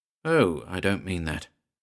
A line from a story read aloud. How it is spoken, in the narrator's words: said Marriott, lowering his voice